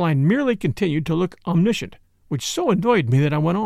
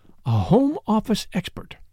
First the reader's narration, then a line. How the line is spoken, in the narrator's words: she breathed